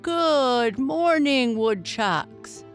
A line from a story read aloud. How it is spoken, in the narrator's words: boomed Principal Burke